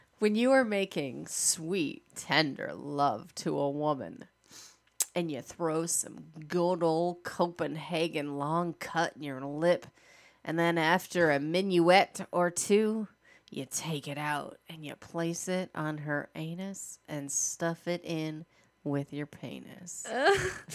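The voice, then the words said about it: Put-on sexy voice reading. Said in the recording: “In your sexy voice.”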